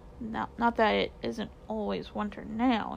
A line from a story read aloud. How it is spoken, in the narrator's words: he said gloomily